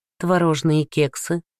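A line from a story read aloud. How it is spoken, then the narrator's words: Plain. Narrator (Russian): спросила она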